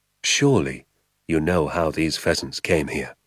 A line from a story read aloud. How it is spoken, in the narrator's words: he said softly